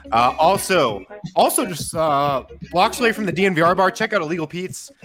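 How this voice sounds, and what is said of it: Tired, worn-out voice. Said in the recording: “My voice is worn out from the week.”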